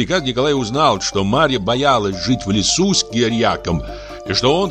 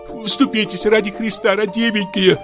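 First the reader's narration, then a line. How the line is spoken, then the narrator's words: Breathless babbling. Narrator (Russian): залепетала Марья, дыша так, точно ее опускали в очень холодную воду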